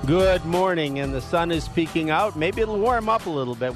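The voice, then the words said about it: Slightly froggy, hoarse voice. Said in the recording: “you hear that my voice is a little bit froggy. I got a cold”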